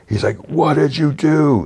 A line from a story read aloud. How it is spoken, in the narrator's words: He yells